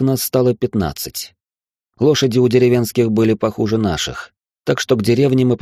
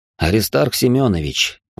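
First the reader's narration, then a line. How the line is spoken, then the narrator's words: Sighed. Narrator (Russian): вздохнул я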